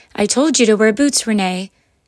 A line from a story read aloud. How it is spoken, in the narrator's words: said her mom cheerfully